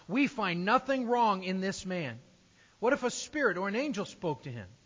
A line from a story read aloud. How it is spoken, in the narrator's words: some of the scribes of the Pharisees' party stood up and contended sharply